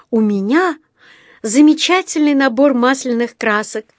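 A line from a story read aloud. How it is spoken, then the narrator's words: Joyful gasp. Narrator (Russian): радостно ахнула Джуди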